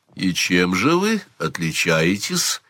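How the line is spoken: Calm question. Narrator (Russian): спокойно спросил Сварог

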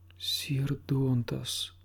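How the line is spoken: Dismayed whisper, woman. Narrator (Russian): с упавшим сердцем прошептала она

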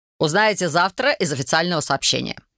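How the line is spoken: Dry reply. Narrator (Russian): сухо отозвался тот

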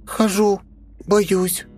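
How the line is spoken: Squeaky voice. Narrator (Russian): пропищала она

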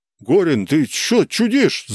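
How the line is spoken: Yelling. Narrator (Russian): заорал тот

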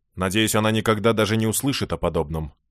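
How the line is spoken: Cold rebuke. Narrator (Russian): холодно осадил ее Брент

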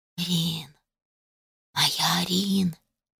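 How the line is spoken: Soft disembodied whisper. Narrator (Russian): Тихий шепот появился ниоткуда

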